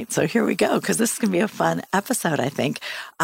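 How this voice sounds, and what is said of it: Strained, unusual-sounding voice. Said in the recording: “My voice is a little funny tonight. I have really bad asthma”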